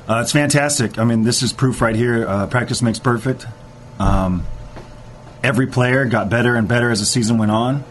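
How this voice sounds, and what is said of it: Hoarse, strained voice. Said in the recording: “I lost my voice from all the yelling and screaming”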